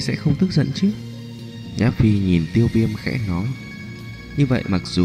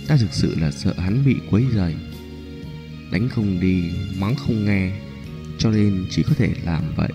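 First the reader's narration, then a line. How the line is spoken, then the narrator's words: Soft, embarrassed. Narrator (Vietnamese): khuôn mặt Nhã Phi ửng đỏ, nói khẽ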